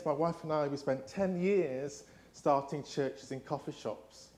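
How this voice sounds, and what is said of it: English accent. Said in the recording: “my English accent ... in the UK we say toilet”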